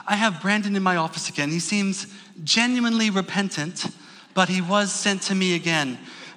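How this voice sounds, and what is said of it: Imitated secretary voice with accent. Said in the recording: “She had a very nice accent.”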